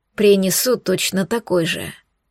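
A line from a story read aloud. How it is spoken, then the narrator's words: Soft. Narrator (Russian): мягко произнес Эйнар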